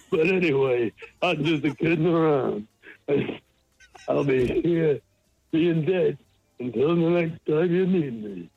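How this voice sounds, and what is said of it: Bad comedian impression over phone. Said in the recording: “doing a Rodney Dangerfield impersonation ... It's so bad and so stupid”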